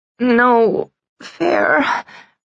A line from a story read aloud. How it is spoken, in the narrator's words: I moaned